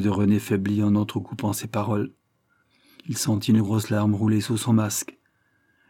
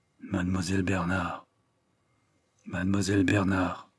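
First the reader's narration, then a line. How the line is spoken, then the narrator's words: Murmured. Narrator (French): murmura-t-il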